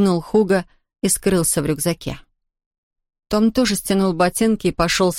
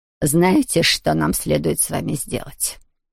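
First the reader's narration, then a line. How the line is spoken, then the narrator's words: Menacingly calm question. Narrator (Russian): спросила она угрожающе спокойным тоном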